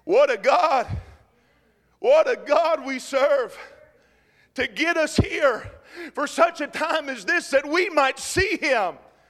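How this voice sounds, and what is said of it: Excited shouting preacher. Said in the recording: “I'm shouting because I'm excited.”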